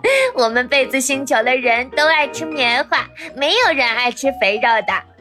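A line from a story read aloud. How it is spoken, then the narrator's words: Grinning, laughing. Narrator (Chinese): 一个小枕头咧嘴笑道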